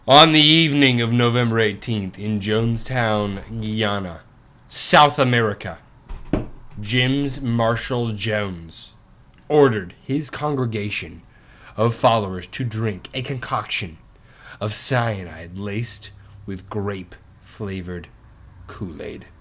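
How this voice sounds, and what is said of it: Dramatic storytelling narrator voice. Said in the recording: “my best and most dramatic voice.”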